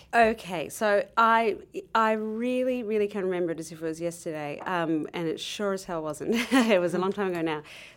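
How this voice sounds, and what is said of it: Australian accent. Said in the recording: “I'm from Australia, that's the accent”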